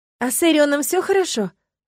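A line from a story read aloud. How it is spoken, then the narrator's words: Anxious question. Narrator (Russian): взволнованно спросила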